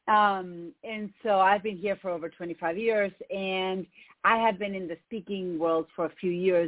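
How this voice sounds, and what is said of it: Argentine Spanish accent in English. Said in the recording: “if you hear an accent, it's because I have one. I'm from Argentina.”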